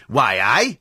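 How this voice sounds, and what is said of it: Put-on northern English accent. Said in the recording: “There's nothing worse than a northern accent. ... these horrible, grating voices”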